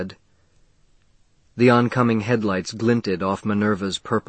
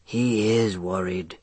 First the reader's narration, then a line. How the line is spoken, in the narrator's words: she said softly